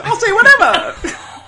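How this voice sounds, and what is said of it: Failed attempt at German accent. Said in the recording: “That's not German accent. ... That's not a German accent. ... I can't do accents!”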